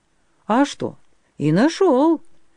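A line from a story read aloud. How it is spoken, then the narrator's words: Cheerful. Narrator (Russian): бодро сказал Быкадёр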